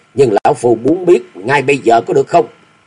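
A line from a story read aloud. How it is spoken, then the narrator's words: Resentful grumbling. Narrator (Vietnamese): Ác quỷ xà ngào hậm hực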